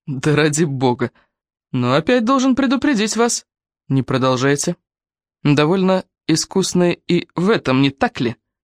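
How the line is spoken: Sour tone. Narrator (Russian): каким кислым тоном произнес эту фразу Дрю

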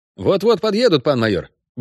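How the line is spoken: Brisk cheerful report. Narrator (Russian): бодро отрапортовал

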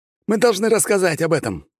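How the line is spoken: Shouted out. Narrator (Russian): выкрикнул еще один

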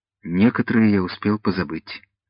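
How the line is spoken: Sad. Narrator (Russian): Вольфганг грустно добавил

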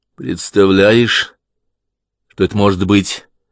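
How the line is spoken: Plain question. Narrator (Russian): спросил Клай

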